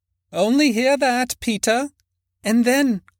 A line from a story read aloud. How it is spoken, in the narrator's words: cried one of the girls